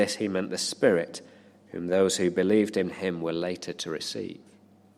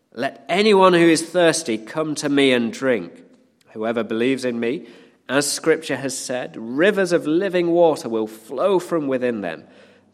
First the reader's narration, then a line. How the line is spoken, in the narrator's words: Jesus said in a loud voice